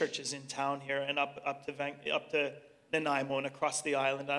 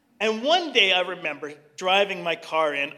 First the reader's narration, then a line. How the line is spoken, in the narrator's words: I yelled